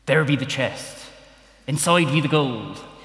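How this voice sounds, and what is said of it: Pirate-style character accent. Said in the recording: “I'll take the accent out now, because it could get boring for you”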